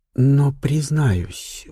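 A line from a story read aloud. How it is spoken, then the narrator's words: Confiding tone. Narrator (Russian): продолжила графиня доверительным тоном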